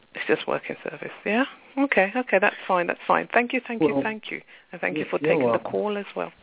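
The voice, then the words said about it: UK accent. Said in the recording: “I fell in love with the UK accent.”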